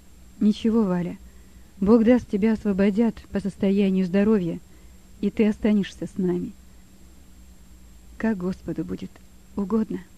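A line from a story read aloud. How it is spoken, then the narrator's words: Quiet. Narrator (Russian): говорила тихо Валя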